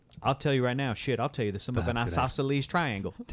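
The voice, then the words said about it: Imitates another person's voice and accent. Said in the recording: “Danny McBride impersonations ... accent”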